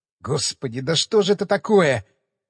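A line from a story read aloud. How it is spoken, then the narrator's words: Muttered. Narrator (Russian): пробормотал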